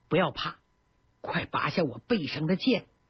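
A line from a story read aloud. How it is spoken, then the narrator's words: Soft smiling voice. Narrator (Chinese): 微微笑了笑，低声说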